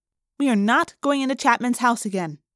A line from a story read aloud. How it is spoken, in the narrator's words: she said firmly